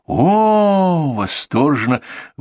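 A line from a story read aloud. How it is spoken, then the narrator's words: Breathless group exhale. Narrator (Russian): выдохнули абиссинцы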